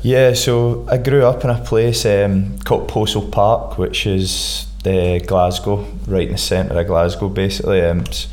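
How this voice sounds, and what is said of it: Scottish accent. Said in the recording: “a Scottish twang in the accent.”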